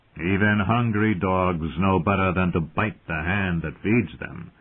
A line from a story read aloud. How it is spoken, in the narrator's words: Littlefinger called dryly